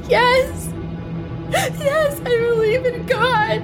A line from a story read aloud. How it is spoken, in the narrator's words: She choked through her sobs and forced inhales